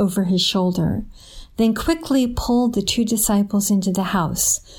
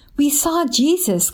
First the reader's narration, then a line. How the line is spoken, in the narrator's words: Cleopas said excitedly